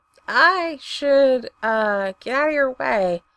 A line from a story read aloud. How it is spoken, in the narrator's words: he croaks